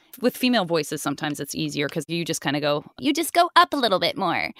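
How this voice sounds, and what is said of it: Imitates another person's voice. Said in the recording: “my impression of Gray doing her actual job voice, which is Azula”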